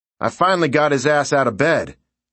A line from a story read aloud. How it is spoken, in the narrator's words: Sarge barked